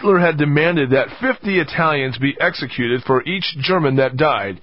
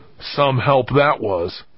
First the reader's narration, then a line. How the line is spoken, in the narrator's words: He muttered